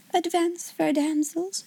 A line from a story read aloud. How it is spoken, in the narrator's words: she said in her happy dream voice